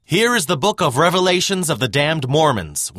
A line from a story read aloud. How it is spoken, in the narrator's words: one of them shouted to the crowd